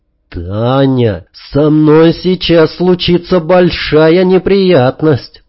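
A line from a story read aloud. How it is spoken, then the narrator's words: Moaning. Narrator (Russian): простонал я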